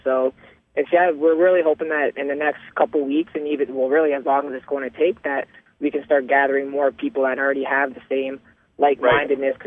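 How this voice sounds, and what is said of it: Hoarse, froggy voice. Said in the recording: “my voice is a little froggy here, just from all the protesting yesterday”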